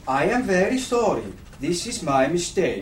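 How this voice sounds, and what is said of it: Fake Norwegian accent. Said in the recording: “I am fake Norwegian ... Oh. Well, it's very convincing ... Fake Norwegian? ... the Norse accent?”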